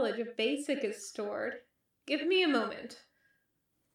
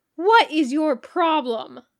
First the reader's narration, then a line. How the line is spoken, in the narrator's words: Sam snapped, looking like she was at the end of her rope